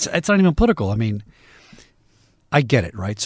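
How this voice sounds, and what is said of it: Usual voice. Nothing is said of it.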